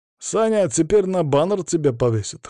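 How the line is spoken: Snorted. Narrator (Russian): хмыкнул он

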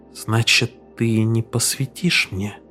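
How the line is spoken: Very quiet. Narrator (Russian): очень тихо произнес Мастерс

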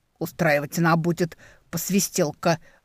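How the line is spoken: Grumbling. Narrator (Russian): проворчала Ефимия Гавриловна

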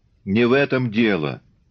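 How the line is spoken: Vexed exclamation. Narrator (Russian): досадливо морщась, воскликнул Копылов

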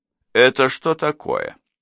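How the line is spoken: Forced casual question. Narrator (Russian): Мне пришлось сделать над собой огромное усилие, чтобы почти нормальным голосом небрежно спросить

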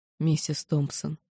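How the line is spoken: Quiet calling. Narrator (Russian): позвала негромко, не боясь, что нас услышат

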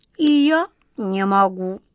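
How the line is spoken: Sorrowful sigh. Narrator (Russian): Кот Васька сокрушенно вздохнул

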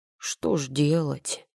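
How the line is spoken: Elf's showy sad sigh. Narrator (Russian): с показательной грустью вздохнул эльф

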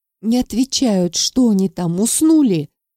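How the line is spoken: Bewildered exclamation. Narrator (Russian): Павлов воскликнул в недоумении

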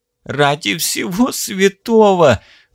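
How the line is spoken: Whimpering in pain. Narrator (Russian): захныкал Алекс, баюкивающий рану, из которой толчками хлестала кровь

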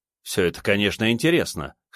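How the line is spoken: Skeptical snort. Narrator (Russian): хмыкнул я

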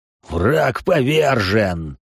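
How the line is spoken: Laughing loudly. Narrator (Russian): захохотал генерал

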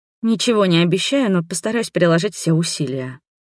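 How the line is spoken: Grumbling. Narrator (Russian): проворчала

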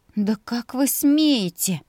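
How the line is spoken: Hurt, breaking near-whisper. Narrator (Russian): От примешавшейся обиды выдержать тон не удалось, и голос сорвался почти что на шепот

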